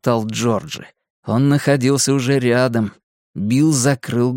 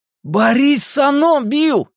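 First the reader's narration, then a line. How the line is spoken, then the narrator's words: Shout. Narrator (Russian): крикнул Ричи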